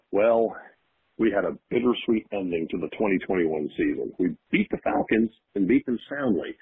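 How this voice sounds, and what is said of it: Radio announcer voice. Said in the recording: “the radio voice”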